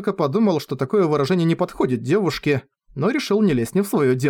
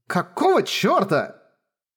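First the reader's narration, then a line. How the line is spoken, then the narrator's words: Exclamation. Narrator (Russian): воскликнула Ику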